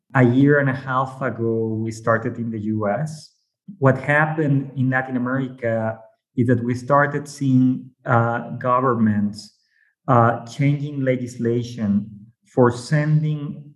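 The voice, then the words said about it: Mexican Spanish accent. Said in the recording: “maybe by my accent, you might know I'm from Mexico”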